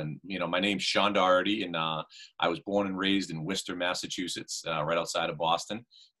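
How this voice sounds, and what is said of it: Boston accent. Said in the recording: “I picked up on the Boston accent”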